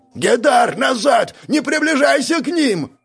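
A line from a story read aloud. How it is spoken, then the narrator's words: Desperate yell. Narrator (Russian): Отчаянно заорал вслед Обид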